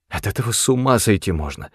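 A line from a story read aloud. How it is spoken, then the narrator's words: Whisper. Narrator (Russian): шептала Лоран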